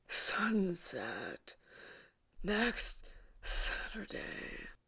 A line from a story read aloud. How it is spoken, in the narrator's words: a look of malice, muted by exhaustion, and panted